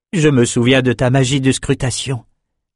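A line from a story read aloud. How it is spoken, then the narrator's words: Plain. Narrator (French): dit Elsa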